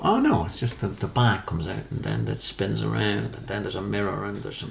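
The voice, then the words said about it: Impression of Alan Davies. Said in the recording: “That's what Alan Davies sounds like. ... That was a perfect impression of Alan Davies.”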